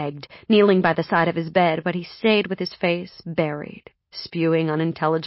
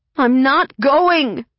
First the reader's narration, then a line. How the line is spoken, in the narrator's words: I cried, trying to sound defiant